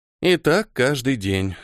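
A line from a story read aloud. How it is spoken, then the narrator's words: Sigh. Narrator (Russian): вздохнула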